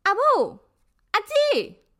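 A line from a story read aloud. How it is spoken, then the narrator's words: Shouting. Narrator (Chinese): 他大叫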